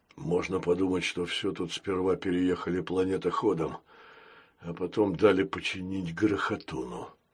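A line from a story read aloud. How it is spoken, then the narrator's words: Muttering. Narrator (Russian): пробормотал Крокс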